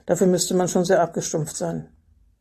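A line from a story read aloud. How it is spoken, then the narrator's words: Dry. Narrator (German): sagte er trocken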